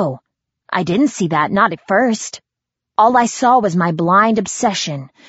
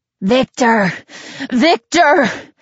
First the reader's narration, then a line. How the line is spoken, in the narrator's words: Robert's pleas were muffled by sobs